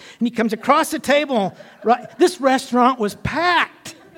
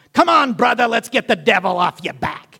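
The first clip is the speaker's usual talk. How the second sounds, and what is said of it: Imitated New York accent. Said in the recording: “he's originally from New York, so he's got that accent”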